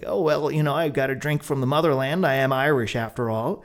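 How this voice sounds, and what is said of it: Put-on American accent. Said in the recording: “That was an American accent”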